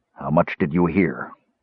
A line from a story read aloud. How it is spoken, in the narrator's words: Caramon asked thickly